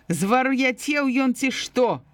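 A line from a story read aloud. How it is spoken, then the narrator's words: Shouting. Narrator (Belarusian): крычала яна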